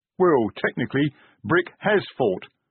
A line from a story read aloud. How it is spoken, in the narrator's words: Detritus began